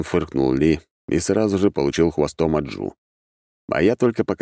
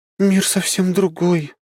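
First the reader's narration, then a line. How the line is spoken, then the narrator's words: Wistful sigh. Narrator (Russian): с тоской вздохнула она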